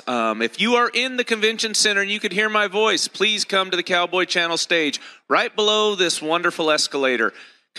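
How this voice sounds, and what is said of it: Slightly raspy voice. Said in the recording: “If I'm a little raspy today, it's because I got hit by allergies”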